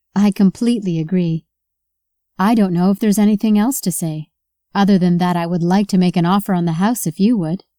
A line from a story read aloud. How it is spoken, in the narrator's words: Emma said